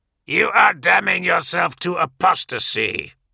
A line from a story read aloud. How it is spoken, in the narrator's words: the Terminator growled a Colchisian command